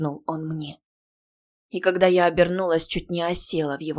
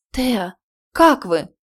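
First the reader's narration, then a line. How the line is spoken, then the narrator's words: Frightened exclamation. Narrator (Russian): Испуганно моим голосом воскликнула Лориана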